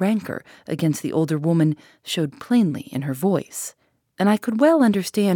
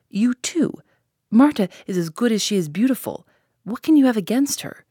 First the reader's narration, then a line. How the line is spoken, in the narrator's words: cried the boy